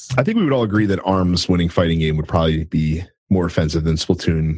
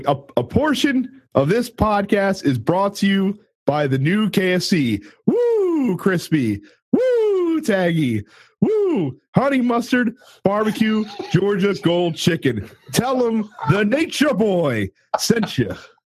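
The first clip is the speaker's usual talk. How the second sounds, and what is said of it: Ric Flair impression. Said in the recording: “not Ric Flair, though. That was a paid impersonator”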